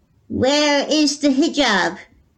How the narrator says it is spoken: the evil witch shouted

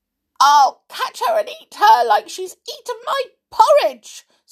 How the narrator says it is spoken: squeaked Little Bear

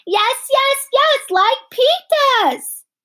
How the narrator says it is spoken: Fudge hollered

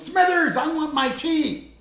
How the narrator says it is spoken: him yelling

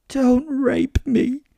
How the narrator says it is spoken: she screamed

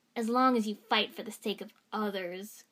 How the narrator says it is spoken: Gaara spat at Sasuke

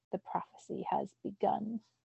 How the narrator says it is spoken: it said in a woman's raspy voice

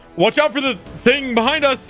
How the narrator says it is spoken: he's gonna yell in

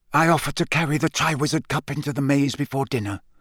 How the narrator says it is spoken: whispered Barty Crouch

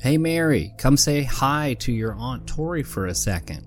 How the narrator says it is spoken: said Mary's father

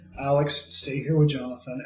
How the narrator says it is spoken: calmly, like someone who is legitimately rage and grief filled, just says

